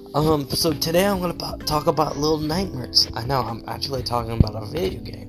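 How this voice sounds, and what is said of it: Sick, weird-sounding voice. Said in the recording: “I sound sick. Um, so my voice is gonna sound pretty weird. I'm gonna probably sound like Markiplier”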